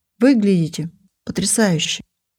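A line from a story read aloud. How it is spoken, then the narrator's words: Husky voice. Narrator (Russian): с хрипотцой произнес он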